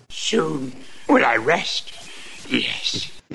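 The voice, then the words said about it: Rough, hoarse, tired character voice. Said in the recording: “He sounds a little beat... A little rough, a little hoarse. It's like he's got a little Grover in his throat.”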